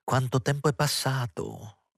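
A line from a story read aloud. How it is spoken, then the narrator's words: Woman exclaiming. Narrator (Italian): esclamò quella donna onesta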